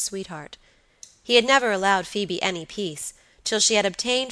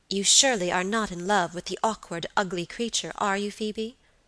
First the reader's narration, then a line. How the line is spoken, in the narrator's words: asked my lady sharply